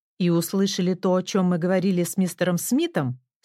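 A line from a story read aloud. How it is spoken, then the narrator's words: Stern question. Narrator (Russian): строго спросила она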